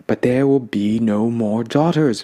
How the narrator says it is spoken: my grandmother moaned, her strong shoulders sinking

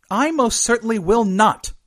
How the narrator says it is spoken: Quares snapped

